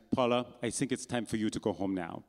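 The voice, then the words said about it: Thick German accent. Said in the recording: “in her thick German accent”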